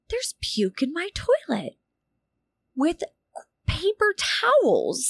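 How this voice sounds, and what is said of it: Usual voice. Nothing is said of it.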